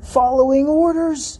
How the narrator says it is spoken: It cried

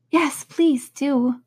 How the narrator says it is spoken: pleaded Alice

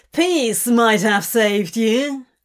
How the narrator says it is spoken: Crowley laughed

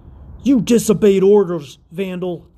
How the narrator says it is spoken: snapped

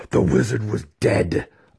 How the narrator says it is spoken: Alton roared

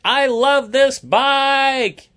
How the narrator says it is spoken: yelled David

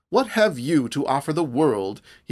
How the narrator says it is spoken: went on savagely

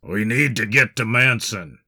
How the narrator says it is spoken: he growled

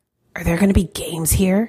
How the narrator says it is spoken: muttered

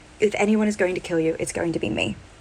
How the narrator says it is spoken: Myra is running towards Milo and tackles him in a hug, a very firm, tight hug, and whispers in his ear

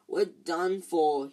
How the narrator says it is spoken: he moaned, as the ceiling sagged

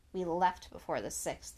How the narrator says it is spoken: answered grimly

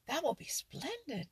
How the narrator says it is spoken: cried the Merry Little Breezes

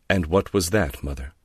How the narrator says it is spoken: Laura said coldly

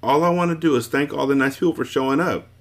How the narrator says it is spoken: she said happily

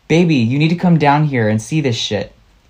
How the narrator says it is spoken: Laughing nervously, yelled again

